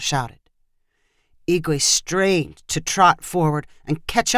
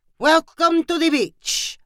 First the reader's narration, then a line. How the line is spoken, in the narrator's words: Pancho called out